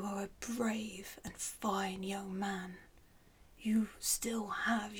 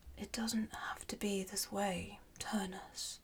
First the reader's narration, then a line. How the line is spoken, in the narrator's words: Latinus replied gently